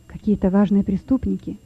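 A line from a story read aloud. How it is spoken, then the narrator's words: Prisoners whispering together. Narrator (Russian): шептались между собой заключенные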